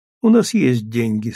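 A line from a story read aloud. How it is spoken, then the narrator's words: Calm reply. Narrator (Russian): спокойно ответила Джули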